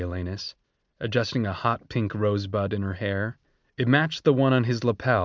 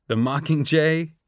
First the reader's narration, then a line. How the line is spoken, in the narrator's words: laughed